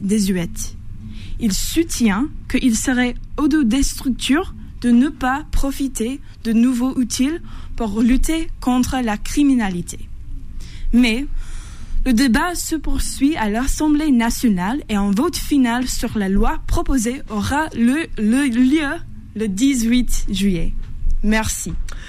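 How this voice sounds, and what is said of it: American accent speaking French. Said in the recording (French): “notre jeune journaliste américaine... votre accent”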